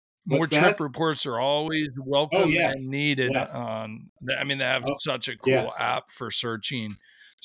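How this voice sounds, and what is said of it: Hoarse, fading voice. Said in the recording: “losing my voice here a little bit. I've had a cold and lost my voice”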